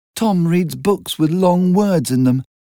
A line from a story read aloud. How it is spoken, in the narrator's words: added Daisy sadly